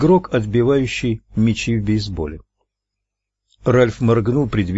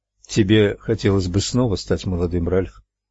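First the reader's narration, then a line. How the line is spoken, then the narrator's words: Plain question. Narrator (Russian): спросила Луиза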